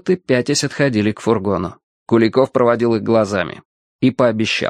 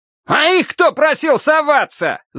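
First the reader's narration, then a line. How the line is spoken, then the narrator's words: Commander's yell. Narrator (Russian): завопил однозвездный командир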